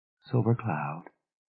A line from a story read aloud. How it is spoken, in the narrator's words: said softly